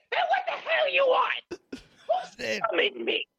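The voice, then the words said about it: Annoying comedic character voice. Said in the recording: “that voice is amazing... amazingly annoying”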